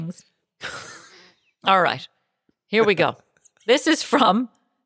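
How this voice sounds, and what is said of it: Usual voice. Nothing is said of it.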